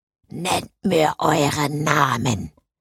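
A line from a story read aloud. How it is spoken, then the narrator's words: Deep-voiced undead demanding. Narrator (German): forderte der Untote mit tiefer Stimme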